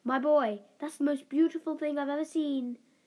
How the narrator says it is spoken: she gasped

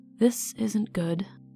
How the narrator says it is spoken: the warrior muttered

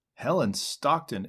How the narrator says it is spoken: exclaimed the youth with unequivocal marks of surprise

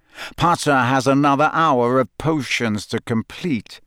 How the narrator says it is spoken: said Snape coldly

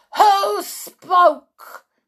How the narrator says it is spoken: shrieked

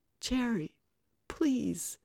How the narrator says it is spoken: Kate pleaded

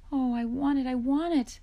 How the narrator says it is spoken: Laura begged

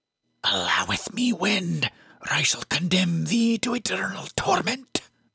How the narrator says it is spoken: she hissed at me in a voice that was anything but human

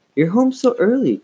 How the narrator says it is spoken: Chris exclaimed

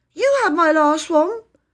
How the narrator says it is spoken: said Phyllis indignantly

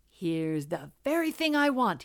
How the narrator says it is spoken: exclaimed

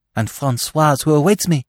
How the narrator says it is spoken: she exclaimed, awakening to a tardy remembrance of her duties

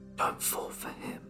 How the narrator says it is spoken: She whispered in my ear

